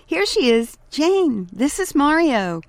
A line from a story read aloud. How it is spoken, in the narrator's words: he exclaimed